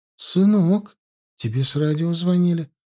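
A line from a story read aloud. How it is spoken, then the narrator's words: Surprised, bewildered voice. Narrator (Russian): Удивленно и растерянно сообщила мама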